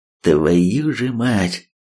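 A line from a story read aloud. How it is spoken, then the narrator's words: Grim, aloud. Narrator (Russian): мрачно в голос произнес Третьяк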